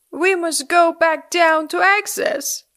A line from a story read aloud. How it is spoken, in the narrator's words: cried Nock